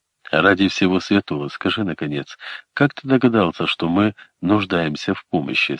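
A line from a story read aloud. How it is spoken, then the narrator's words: Plain. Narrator (Russian): спросил Колин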